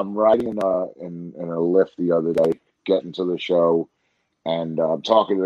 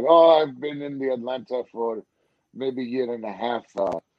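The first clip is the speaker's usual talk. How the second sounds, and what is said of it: Put-on Iranian accent. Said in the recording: “my Iranian brothers ... they still have, you know, the accent and everything.”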